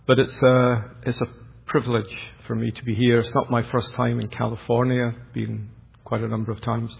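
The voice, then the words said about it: Educated Glasgow Scottish accent. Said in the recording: “my semi-mellifluous, educated Glasgow accent”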